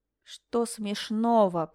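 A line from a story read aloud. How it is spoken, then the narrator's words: Grumbling. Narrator (Russian): проворчала Линель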